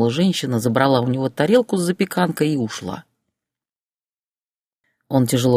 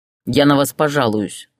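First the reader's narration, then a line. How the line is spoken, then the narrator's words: Angry reply. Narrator (Russian): зло ответил Борис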